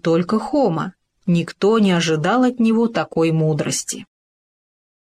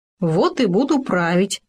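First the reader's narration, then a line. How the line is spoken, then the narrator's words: Smirking grunt, gopher. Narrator (Russian): хмыкнул суслик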